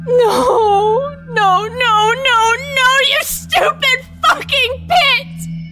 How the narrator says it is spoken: screeched at the night

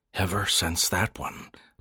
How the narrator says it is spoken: Landon repeated softly

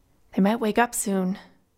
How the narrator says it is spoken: Connor said nervously

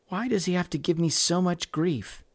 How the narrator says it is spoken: Mary said quietly

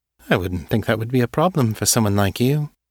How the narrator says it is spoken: I say, coloring my voice with mild amusement

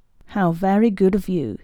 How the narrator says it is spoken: he said

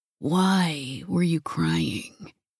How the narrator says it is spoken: he murmured

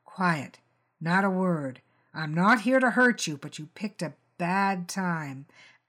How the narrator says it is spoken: He dropped Algy's speech patterns and growled

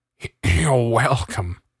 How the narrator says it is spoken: he grunted, clutching his heart and trying not to faint

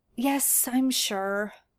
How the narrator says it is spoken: Merlin sighs

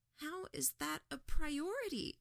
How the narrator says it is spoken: asked, her voice tremulous, like she might break at any second

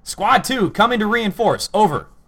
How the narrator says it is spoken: Into the radio, he shouted

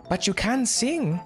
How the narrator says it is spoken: she asked rather anxiously, I thought

